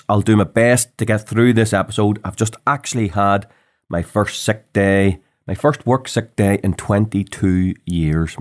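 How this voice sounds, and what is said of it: Hoarse, sick-sounding voice. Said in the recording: “I'm probably sounding a wee bit hoarse ... If I'm coughing and spluttering, or you can't make me out because I'm too hoarse”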